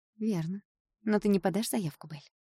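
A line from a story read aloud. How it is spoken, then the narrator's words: Calm. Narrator (Russian): спокойно сказала Ева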